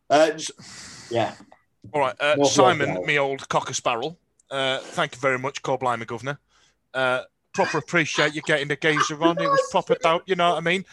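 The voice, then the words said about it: Put-on Cockney accent. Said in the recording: “only if he'll do it in a Cockney accent ... A Cockney accent?”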